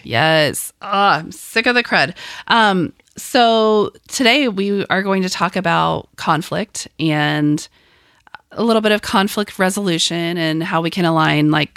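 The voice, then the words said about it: Raspy, hoarse sick voice. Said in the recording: “I'm a little raspy, so I'm going to hopefully not have too many coughs on mic, but that's why I sound very like Kermit the Froggy.”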